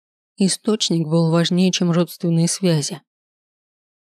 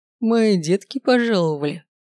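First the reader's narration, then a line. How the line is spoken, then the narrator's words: Mocking. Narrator (Russian): произнес император насмешливо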